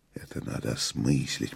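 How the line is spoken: Whisper. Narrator (Russian): прошептал мастер

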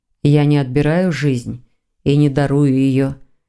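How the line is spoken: Soft reply. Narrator (Russian): мягко ответил Константин

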